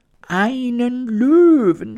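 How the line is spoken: Horrified queen's scream. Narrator (German): schrie die Königin entsetzt

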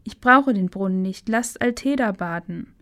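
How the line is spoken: Called out. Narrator (German): rief

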